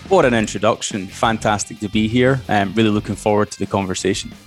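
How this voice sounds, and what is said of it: Softened international Scottish accent. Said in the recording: “We haven't rounded that accent out yet, have we, in Australia? ... I do refer to this as a bit of an international version of Scottish ... I don't sound like I should”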